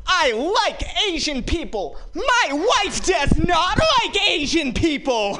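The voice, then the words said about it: Imitates another person's voice. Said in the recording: “John Mulaney impression”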